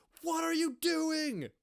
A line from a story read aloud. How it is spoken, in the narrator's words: Patty screams